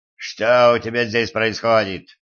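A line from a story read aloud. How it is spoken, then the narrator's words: Growling. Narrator (Russian): прорычал Силк, приближаясь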